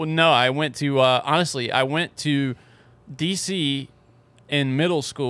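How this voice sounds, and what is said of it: Usual voice. Nothing is said of it.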